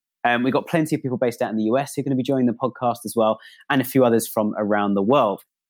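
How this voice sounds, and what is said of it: British accent. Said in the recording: “the UK, which is where I'm based, as you can probably tell from my accent.”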